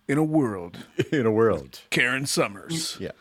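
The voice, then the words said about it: Deep movie trailer narrator voice. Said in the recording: “trailer voice”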